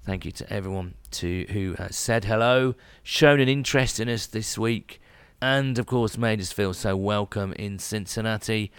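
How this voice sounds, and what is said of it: Voice noticeably lower, worn from overuse. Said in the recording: “My voice is an octave lower after talking so much this weekend”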